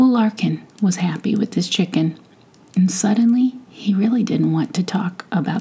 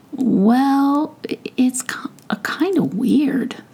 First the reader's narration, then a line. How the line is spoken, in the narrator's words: started Larkin hesitantly